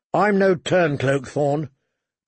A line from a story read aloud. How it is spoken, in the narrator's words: John said coldly